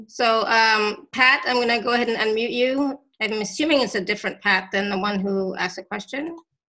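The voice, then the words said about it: Voice slightly going, strained. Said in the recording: “my voice is kind of going a little bit.”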